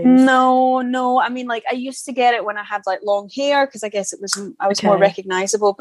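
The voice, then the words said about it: Scottish accent. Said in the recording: “I get recognized in London purely because of my accent ... they're like Scottish”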